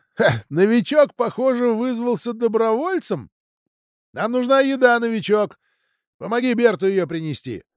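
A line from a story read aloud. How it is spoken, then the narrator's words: Sharp laugh, then speech. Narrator (Russian): Командир отряда, Урсула, резко рассмеялась и сказала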